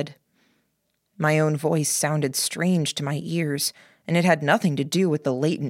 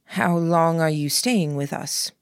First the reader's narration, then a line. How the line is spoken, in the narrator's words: asked